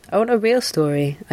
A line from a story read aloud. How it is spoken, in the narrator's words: I said